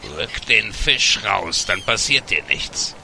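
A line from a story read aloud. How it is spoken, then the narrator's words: Loud croak. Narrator (German): Einer von ihnen ... krächzte laut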